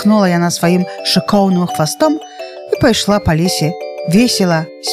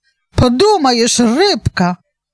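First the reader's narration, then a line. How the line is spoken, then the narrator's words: Feigned cheerful exclamation. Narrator (Belarusian): прытворна весела ўсклікнула рыжая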